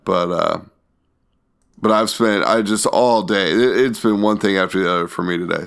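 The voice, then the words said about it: Worn-out, strained voice. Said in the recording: “my voice is almost done”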